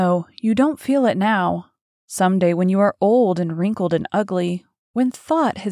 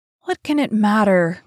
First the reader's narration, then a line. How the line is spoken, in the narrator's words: cried Dorian Gray, laughing